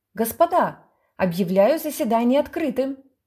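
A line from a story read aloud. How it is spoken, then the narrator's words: Schoolboy shouting. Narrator (Russian): Петя Тузин, гимназист первого класса, крикнул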